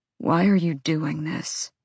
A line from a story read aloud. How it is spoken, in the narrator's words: Rune asked hoarsely